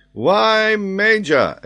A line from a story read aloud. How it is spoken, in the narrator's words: exclaimed Paganel